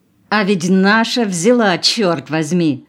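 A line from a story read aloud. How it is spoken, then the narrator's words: Laughing. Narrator (Russian): засмеялся Сипьян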